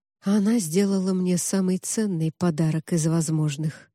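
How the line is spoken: Quiet. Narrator (Russian): негромко произнес Август

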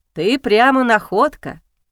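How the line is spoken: Smirking grunt. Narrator (Russian): хмыкнул он

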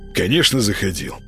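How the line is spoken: Scoffing snort. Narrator (Russian): фыркнул Молчан

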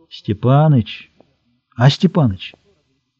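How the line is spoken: Quiet call. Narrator (Russian): Смолин тихо позвал

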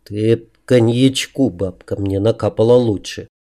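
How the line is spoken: Quiet muttering under breath. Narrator (Russian): пробурчал тихо себе под нос

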